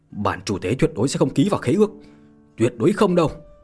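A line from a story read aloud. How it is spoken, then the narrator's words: Screaming. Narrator (Vietnamese): La Đạo Nam gào thét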